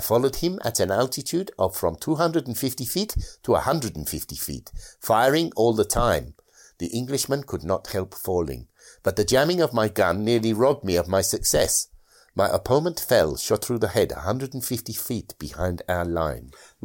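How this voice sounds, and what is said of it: Dodgy put-on accent. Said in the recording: “the translation's slightly dodgy ... As was the accent.”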